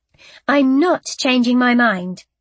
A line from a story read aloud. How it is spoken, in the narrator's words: I said firmly